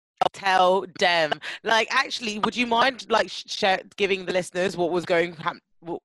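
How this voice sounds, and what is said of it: Stuttering speech. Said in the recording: “why am I stuttering?”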